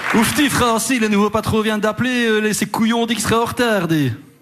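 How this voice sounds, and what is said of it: Attempted Liège accent. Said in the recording (French): “C'est quoi cet accent de Liège? ... je ne sais pas faire l'accent liégeois”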